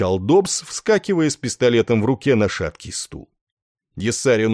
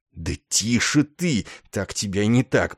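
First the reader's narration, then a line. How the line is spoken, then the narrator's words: Hissed. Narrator (Russian): прошипел Ясарин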